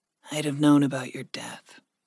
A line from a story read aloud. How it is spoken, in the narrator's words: Gregory whispered